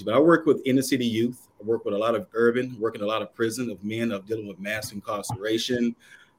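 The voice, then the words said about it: Southern American accent. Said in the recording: “originally from Kannapolis, North Carolina ... definitely different from the South ... they do not have my accent”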